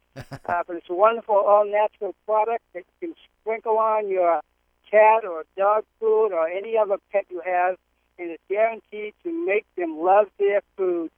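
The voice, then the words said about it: Boston accent. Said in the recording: “We are a Boston-based company, as you can probably tell from my accent”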